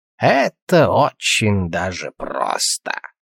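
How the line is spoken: Snort. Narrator (Russian): Алвис хмыкнул

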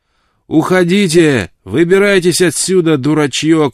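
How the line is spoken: Shout. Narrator (Russian): крикнул им Джейкоб Уэллс

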